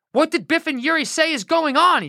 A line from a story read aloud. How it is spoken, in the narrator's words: He shouted at another wall guard